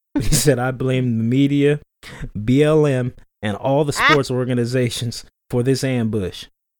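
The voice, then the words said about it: Put-on Southern American accent. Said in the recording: “Why did I give him a Southern accent? ... why did I automatically give him a Southern accent?”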